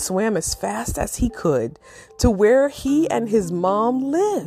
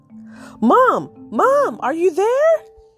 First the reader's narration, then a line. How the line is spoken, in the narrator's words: yelled again